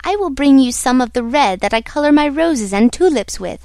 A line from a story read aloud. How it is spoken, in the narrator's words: cried the red Ryl